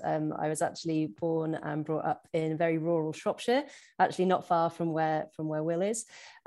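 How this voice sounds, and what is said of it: English accent, not Scottish. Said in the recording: “you can probably tell from my accent that I'm not originally from Scotland”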